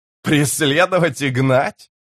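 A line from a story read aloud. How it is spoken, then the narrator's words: Roaring laughter. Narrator (Russian): Карса расхохотался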